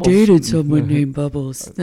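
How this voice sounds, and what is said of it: Imitates another person's voice. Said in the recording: “That was my impersonation of you.”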